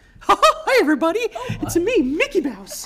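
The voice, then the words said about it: Mickey Mouse cartoon voice impression. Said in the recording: “I can imitate him. ... my imitation”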